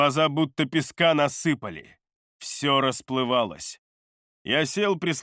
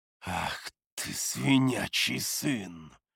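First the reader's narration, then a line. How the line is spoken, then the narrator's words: Growl. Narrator (Russian): Зарычал я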